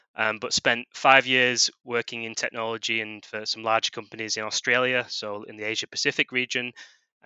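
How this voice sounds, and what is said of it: British accent. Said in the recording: “originally from the UK, you can probably tell by my accent”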